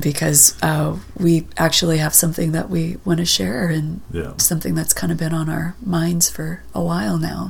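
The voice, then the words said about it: Sick, strained voice. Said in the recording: “without completely losing my voice ... because you're sick ... I am a little under the weather”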